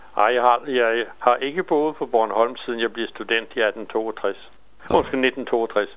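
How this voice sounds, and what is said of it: Bornholm Danish dialect. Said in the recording (Danish): “det er ikke Birkerød accent, du har jo ... jeg kan godt snakke rigtig bornholmsk ... mærker man stadig min dialekt”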